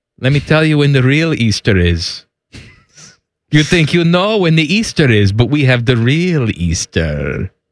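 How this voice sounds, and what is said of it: Put-on Greek accent. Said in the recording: “That's the Greek accent that you're going with?”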